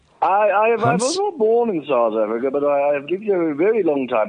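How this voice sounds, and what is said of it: Swazi accent. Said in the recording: “You picked up my Swazi accent ... you've been having some Swazi, and it's caused you to have an accent”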